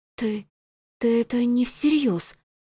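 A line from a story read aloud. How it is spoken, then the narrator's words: Stunned breathless gasp. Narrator (Russian): Ошеломленно выдохнула она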